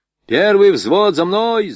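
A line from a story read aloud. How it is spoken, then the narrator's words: Shout. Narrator (Russian): закричал Борейко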